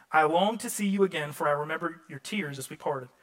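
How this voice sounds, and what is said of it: Southern US accent. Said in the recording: “I'll pronunciate it in my southern dialect however I want.”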